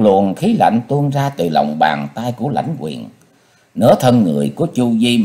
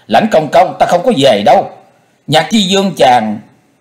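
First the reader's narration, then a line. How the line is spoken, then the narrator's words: Startled, furious screaming. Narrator (Vietnamese): vừa ngạc nhiên vừa giận dữ, giãy nảy hét lên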